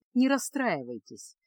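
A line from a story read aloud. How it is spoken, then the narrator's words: Gentle, smiling. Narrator (Russian): мягко улыбнулся Реммао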